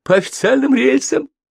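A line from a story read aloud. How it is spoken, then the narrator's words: Sigh, then bitter laughter. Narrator (Russian): Михалыч глубоко вздохнул, пытаясь успокоиться, но снова горько захохотал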